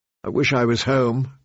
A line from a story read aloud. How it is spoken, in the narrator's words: she said miserably